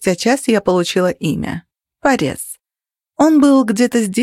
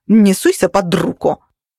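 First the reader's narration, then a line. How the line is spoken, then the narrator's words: Angry, tossed over shoulder. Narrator (Russian): сердито обернулась и через плечо бросила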